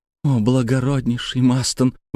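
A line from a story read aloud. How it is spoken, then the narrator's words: Exclaiming. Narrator (Russian): воскликнула миссис Эвенджелина Скорбит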